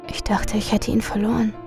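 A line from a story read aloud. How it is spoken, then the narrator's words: Quiet. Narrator (German): sagte sie leise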